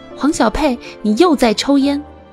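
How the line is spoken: Shouting. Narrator (Chinese): 撒花大喊

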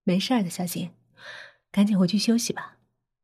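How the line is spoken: Soft, kindly. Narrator (Chinese): 张默 亲切的 轻声说

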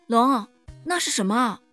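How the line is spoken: Girl suddenly calling out. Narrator (Chinese): 女孩突然对着龙叫道

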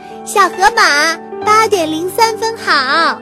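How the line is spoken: Loud greeting. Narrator (Chinese): 小兔子 大声地向它打招呼

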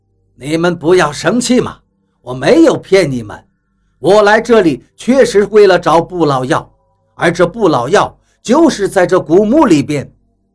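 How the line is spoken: Laughing. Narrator (Chinese): 比利 却笑着

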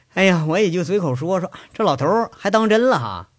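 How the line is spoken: Laughing sigh. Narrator (Chinese): 杨伟笑着叹了一句

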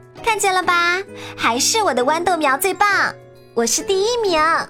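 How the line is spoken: Loudly. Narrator (Chinese): 威尔利特又大声地说

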